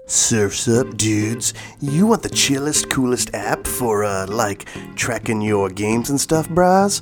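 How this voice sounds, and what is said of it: Put-on weird surfer-dude accent. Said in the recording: “This accent is getting weird... Whew, this is a weird one.”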